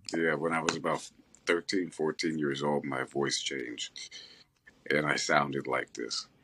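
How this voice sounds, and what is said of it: Very deep voice. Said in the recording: “somebody who sounds like Morgan Freeman, like, legit ... you have a better voice than Morgan Freeman ... has a deep voice”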